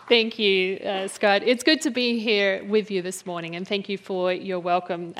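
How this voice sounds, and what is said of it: Australian accent. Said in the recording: “she's originally from Australia, which means she has one of the coolest accents in all the world”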